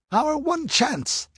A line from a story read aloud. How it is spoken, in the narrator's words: exclaimed Nabonidus